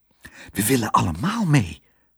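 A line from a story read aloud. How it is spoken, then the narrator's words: Whispered. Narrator (Dutch): fluisterde hij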